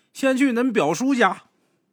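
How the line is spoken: Aunt calling. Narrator (Chinese): 听他二姑喊

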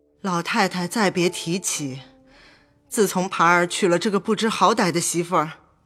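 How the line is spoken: Embarrassed sigh. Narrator (Chinese): 薛姨妈满脸绯红，叹了口气道

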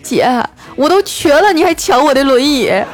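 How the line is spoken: Anxious, tearful voice. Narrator (Chinese): 他听完就急了啊，带着哭腔说

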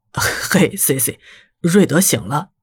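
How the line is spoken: Suppressed laughter. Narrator (Chinese): 后者憋着笑说道

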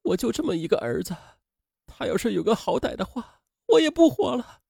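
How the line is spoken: Crying. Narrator (Chinese): 妻子哭着说

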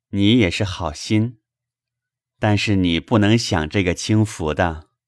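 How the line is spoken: Laughing. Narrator (Chinese): 宝玉笑道

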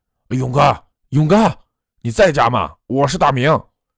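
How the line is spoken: Calling out while knocking. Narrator (Chinese): 他一边拍门一边喊着

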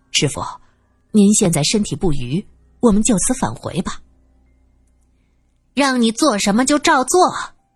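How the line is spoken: Low voice. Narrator (Chinese): 他低声说道

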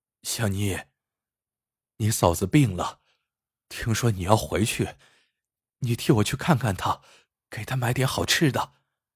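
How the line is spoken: Hoarse voice. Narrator (Chinese): 黑子嘶哑着嗓子对香妮说

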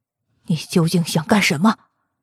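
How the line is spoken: Through gritted teeth. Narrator (Chinese): 他咬牙切齿的问风烈

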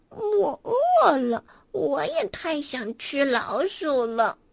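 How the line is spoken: Quiet mumble. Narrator (Chinese): 赫娜小声嘟囔

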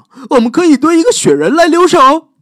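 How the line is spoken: Excited shout. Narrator (Chinese): 乔老师激动的喊道

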